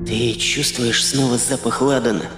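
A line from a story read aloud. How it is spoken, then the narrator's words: Whispered question. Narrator (Russian): шепотом спросила Танька у Сереги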